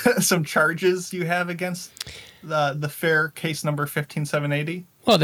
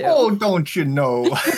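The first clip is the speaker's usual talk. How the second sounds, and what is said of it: Put-on Minnesota accent. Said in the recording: “Minnesota nice ... two points for the accent”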